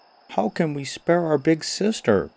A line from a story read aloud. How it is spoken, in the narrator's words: cried one of the dwarfs